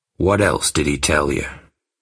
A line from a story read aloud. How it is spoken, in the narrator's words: asked Bill, lowering his voice